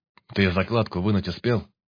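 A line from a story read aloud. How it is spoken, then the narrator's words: Plain. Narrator (Russian): спросил Баркас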